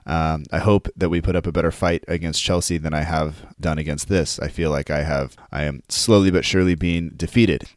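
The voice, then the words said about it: Raspy, croaky sick voice. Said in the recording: “my voice sounds a bit raspy or croaky, and it is because I am battling some sickness, sore throat”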